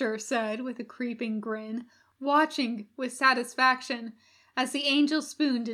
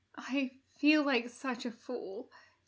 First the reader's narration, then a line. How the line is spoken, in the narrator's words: he said shakily